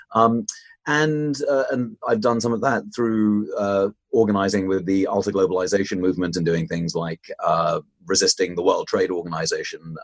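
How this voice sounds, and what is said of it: British accent. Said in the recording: “I started in the United Kingdom, as you might be able to tell from my accent”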